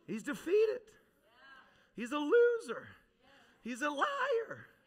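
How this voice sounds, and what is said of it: Unusually high-pitched voice. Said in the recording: “I don't know why my voice is so high.”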